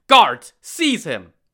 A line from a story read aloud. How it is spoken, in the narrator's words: Prefect Cai flew into a rage and barked